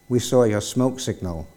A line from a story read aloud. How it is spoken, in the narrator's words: they replied